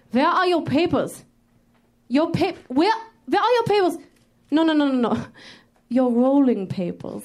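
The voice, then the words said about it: Performs a cool Nazi character voice. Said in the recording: “my impression of a cool Nazi”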